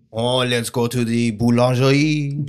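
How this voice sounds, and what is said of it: Exaggerated put-on French accent. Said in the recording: “do our best French impression ... what do French people sound like?”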